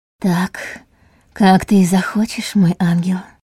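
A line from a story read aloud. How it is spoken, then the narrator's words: Near whisper. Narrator (Russian): почти прошептала она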